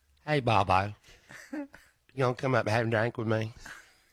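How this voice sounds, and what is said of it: Imitates another person's voice. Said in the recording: “can you do a impersonate her”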